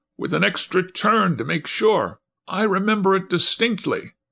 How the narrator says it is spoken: whimpered the man in the first lull

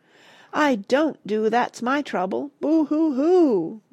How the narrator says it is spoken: roared the dragon, tears running down her cheeks

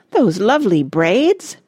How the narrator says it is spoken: exclaimed Miss Pearl

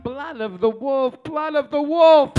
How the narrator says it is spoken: she'd moan in broken English

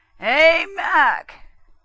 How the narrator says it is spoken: Tarr bellowed

